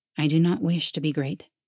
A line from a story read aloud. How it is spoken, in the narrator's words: he said, though softly, gently